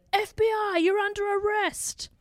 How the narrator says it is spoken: a man jumped in front of his car yelling

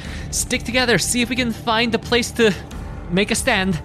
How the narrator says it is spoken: Tess will just yell

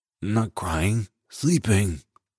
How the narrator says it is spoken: mumbles into her pillow

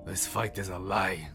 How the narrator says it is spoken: the lion growled

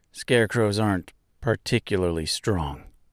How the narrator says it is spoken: said in a sad voice

